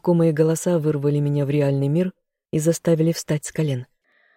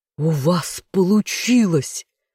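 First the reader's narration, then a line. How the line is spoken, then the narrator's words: Exclaimed. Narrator (Russian): воскликнул один из них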